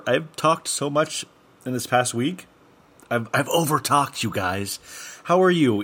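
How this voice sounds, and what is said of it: Slightly hoarse, froggy voice. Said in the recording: “my voice is a little froggy because my voice is sore”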